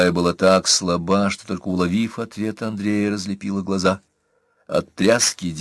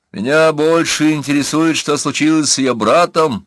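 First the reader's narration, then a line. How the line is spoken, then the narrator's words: Shouting. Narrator (Russian): крикнул Трипольский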